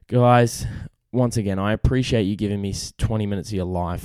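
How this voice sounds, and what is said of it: Hoarse, strained voice. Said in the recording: “I'm losing my voice. I'm already fighting off the sickness.”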